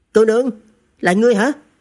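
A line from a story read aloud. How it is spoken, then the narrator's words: Shocked cry. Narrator (Vietnamese): Trần Thực kinh ngạc vạn phần, thất thanh kêu lên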